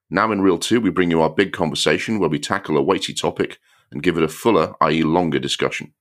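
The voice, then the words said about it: Strained, sore-throated voice. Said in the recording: “My voice is not at its best today. I had a bit of a bad throat over the weekend”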